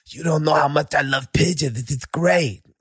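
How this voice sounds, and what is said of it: Imitates another person's voice. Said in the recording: “If I close my eyes, it's Mike Tyson, bro. Hey, that's how good your impression is.”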